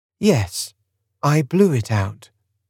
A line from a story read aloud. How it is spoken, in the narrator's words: said Miles calmly